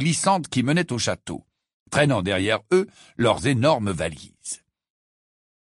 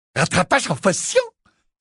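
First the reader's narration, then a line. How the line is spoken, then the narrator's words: Disdainful exclamation. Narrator (French): s'exclama dédaigneusement Zacharias Smith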